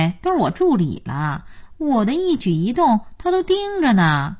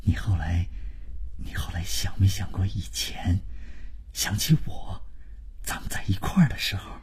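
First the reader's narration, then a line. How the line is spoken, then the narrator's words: Low sentimental voice. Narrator (Chinese): 万征就是开始煽情，他压低了声音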